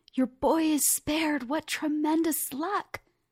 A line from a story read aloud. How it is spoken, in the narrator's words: His neighbor shouted